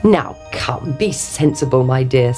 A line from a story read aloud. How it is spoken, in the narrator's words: said the king